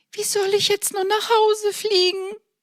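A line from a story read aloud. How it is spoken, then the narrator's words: Whining. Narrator (German): jammerte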